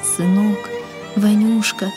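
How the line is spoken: Tearful whisper, old father. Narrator (Russian): шептал отец, и по впалым морщинистым щекам текли крупные слезы

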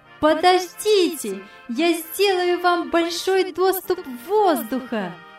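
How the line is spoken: Joyful shout. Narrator (Russian): радостно крикнула Яна

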